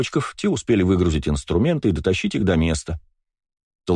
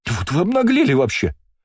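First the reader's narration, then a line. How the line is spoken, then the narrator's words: Shrieking. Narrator (Russian): взвизгнула Ширли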